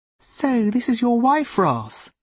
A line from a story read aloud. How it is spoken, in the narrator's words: said Ruth sweetly